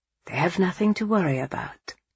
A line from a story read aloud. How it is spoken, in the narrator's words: Angelo said softly